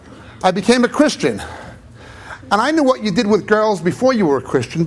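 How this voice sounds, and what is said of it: Strong New York accent. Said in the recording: “my native New York, as you can tell by my Robert De Niro Bugs Bunny accent”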